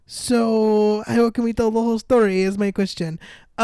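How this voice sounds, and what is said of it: Put-on Russian accent. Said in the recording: “My Russian accent? ... I'm practicing. ... Acting.”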